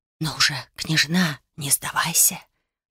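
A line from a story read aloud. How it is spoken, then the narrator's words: Whisper. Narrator (Russian): прошептал чей-то голос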